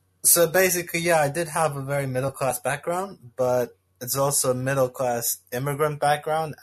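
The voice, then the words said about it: Slight American twang. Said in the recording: “You can pick up a slight American twang to my accent, because I learned English in the States.”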